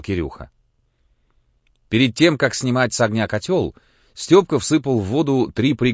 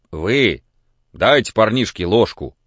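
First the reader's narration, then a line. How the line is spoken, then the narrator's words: Stern remark. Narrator (Russian): строго заметил Пантелей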